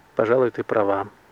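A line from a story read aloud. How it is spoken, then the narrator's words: Gloomy agreement. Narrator (Russian): мрачно согласился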